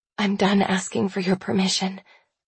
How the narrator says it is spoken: I whisper

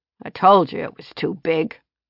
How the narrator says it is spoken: the old man grumbled

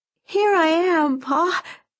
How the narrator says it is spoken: she cried, her voice parched and weak

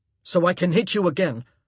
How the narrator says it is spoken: Anthony grunted

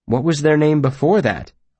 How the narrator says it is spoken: I asked

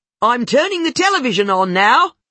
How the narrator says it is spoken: she yelled

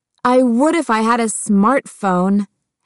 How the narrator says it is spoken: Heather snarled

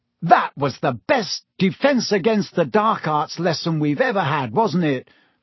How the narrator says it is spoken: said Ron excitedly

